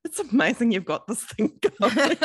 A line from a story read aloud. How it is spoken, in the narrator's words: he just laughed and he said